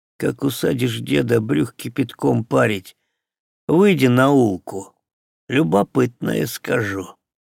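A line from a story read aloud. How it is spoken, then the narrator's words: Whispered. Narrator (Russian): Амелька шепнул ему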